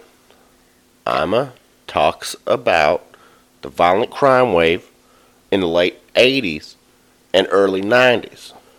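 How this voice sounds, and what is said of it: Sudden put-on accent while reading. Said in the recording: “Where's that accent coming from?”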